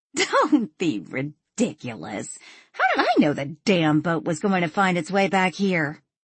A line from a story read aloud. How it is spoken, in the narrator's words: She laughed before saying